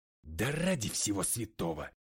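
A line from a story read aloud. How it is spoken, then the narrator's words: Hiss. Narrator (Russian): прошипел я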